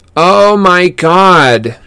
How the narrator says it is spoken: she shouted

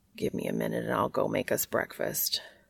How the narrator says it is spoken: Cass mumbles

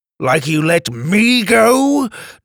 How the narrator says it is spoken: Drake spat

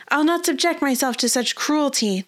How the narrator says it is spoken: the princess shouted

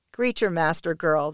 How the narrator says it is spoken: the captain says

